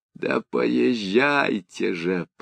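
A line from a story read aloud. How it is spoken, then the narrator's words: Groaning. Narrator (Russian): простонал Леонид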